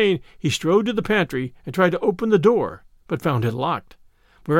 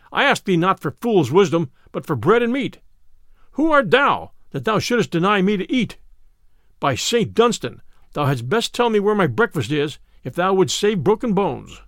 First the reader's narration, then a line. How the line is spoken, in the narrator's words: cried Little John